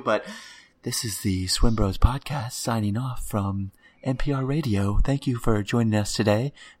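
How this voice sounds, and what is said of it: Mock NPR radio announcer voice. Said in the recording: “I'll use the NPR voice tone on my microphone.”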